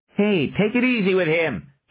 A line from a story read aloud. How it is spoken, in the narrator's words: Johnny cried